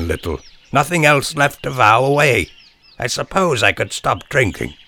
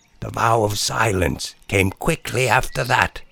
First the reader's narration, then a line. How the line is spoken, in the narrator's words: she said, whispering, as though in violating the vow as she was, she felt obliged to at least pay her respects to its inaudible aims